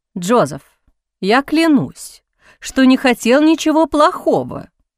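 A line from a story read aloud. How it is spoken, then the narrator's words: Heated exclamation. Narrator (Russian): горячо воскликнул Хавьер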